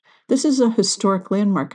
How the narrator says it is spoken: I said

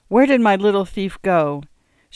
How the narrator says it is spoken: laughed again

